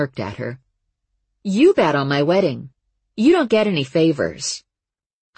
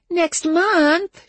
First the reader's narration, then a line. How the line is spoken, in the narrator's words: she whined